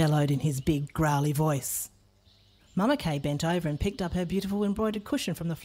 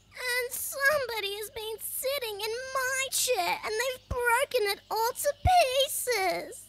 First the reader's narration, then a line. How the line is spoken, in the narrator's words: he cried in his squeaky baby voice